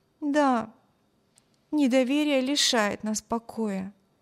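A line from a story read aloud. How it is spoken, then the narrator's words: Sighing. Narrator (Russian): вздохнула Эми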